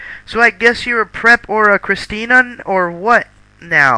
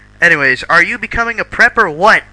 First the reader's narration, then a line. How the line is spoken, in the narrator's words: I shouted angrily